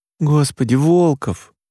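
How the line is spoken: Groaning. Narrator (Russian): наконец простонала Машка

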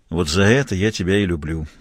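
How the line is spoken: Tired. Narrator (Russian): устало сказал Мазур

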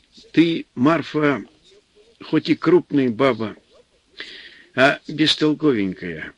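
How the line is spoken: Affectionate, good-humored. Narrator (Russian): В минуты хорошего настроения, Антип ласково говорил жене

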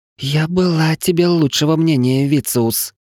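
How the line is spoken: Hissed angrily. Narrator (Russian): злобно прошипела рыжая

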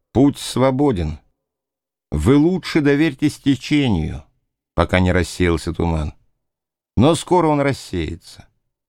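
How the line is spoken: Calm. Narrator (Russian): Джим спокойно сказал

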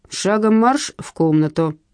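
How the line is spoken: Stern command. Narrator (Russian): строго скомандовал Василий Макарович

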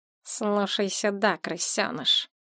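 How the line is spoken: Small man hissing. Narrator (Russian): прошипел маленький человек

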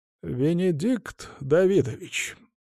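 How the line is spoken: Drawn-out drawl. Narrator (Russian): снова протянула она

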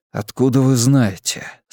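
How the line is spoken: Quiet voice, echoing loudly. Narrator (Russian): спросил я тихо, но акустика в этом подземном ангаре такая, что мой голос услышали даже те, кто возился с машинами

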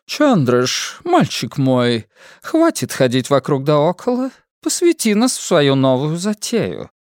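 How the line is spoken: Purring. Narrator (Russian): мурлыкает мадам Падва

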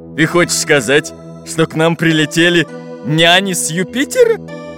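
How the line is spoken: Growled. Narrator (Russian): прорычал капитан Буль-Буль

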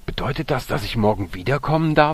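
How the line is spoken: Excited question. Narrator (German): fragte Marco den Direktor aufgeregt

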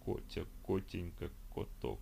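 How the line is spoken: Muttering cat. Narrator (Russian): пробормотал кот

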